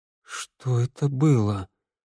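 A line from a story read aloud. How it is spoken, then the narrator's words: Trembling voice. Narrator (Russian): спросил Тео дрожащим голосом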